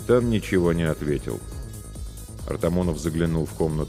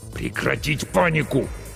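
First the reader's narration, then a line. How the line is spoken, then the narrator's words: Hissed. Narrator (Russian): снова прошипел капитан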